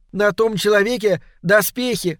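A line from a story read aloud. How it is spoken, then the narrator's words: Shouted. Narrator (Russian): снова крикнула Доркас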